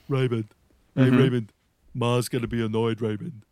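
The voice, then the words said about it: Imitates a sitcom character's voice. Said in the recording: “I can do an Everybody Loves Raymond impression that is no good for anything. But the brother in Everybody Loves Raymond ... That's my impression of him.”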